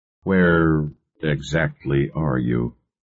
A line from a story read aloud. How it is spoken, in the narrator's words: he asked in a slow, hesitant voice